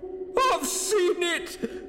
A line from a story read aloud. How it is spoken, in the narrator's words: said Hurst with a hysterical sob